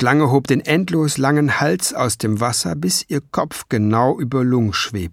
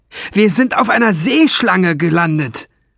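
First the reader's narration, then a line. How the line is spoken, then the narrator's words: Screamed. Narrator (German): schrie Ben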